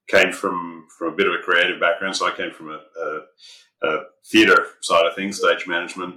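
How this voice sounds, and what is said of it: Australian accent. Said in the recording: “as you might guess from the accent, from a little further afield than North America... spent the first half of my life in Australia”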